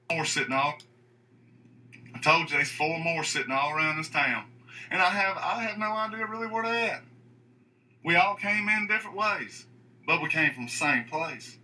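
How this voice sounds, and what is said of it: Unconvincing Southern accent. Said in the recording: “this guy's Southern accent ... I could do a better Southern impersonation than that”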